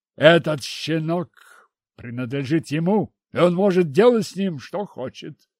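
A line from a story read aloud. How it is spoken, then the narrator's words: Grumbling, father. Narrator (Russian): проворчал папаша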